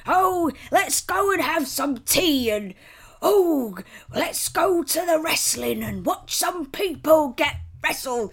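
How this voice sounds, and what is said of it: American's exaggerated fake British accent. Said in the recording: “when an American does an impression of an English person ... That's what Americans sound like when they try and be British.”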